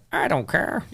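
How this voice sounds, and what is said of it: Imitates another person's voice. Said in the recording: “Warren Buffett would just be like ... That's a good impersonation. ... I love your impression.”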